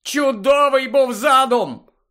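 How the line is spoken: Angry shout. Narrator (Ukrainian): крикнув він, бажаючи зігнати бодай на комусь злість

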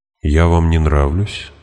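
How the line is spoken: Calm question. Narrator (Russian): спокойно спросила она

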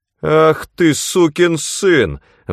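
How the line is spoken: Roar. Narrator (Russian): взревел он

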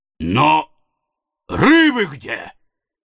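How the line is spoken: Exclaiming. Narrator (Russian): воскликнул канадец

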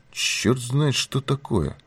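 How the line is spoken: Gruff mutter. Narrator (Russian): буркнул Пинкертон

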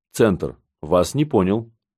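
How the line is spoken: Plain. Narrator (Russian): ответил Данилов

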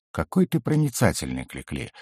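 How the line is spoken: Wry snort. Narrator (Russian): хмыкнул я

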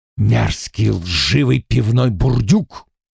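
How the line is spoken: Hissing. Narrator (Russian): прошипел он

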